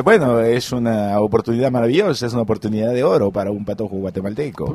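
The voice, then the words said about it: Put-on Uruguayan Spanish accent. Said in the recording (Spanish): “le hace acento... uruguayo. Uruguayo.”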